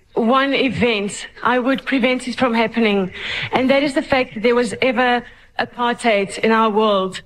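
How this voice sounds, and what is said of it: Heavy Afrikaans accent. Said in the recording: “I've still got a very heavy Afrikaans accent on that ... You got such a lovely accent.”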